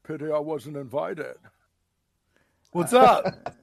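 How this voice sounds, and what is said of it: Imitates another person's voice. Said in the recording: “that frickin' Sean Connery impersonation ... That was pretty good, actually.”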